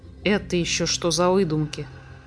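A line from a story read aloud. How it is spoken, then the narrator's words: Muttering. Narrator (Russian): пробормотал Андатр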